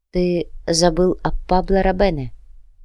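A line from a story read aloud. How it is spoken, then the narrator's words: Quiet reminder. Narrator (Russian): негромко напомнила Клаудия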